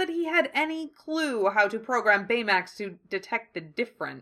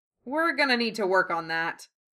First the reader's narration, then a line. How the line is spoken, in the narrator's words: Hiro muttered